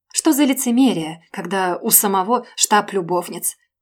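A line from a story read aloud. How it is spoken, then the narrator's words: Snorting, hasty dismissal. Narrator (Russian): Хмыкнув, поспешно отмахнулась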